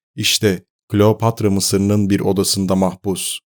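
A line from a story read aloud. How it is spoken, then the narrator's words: Plain. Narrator (Turkish): dedi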